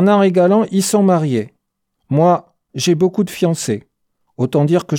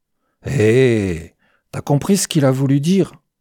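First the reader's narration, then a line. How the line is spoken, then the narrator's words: Calm murmur. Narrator (French): murmura posément Séché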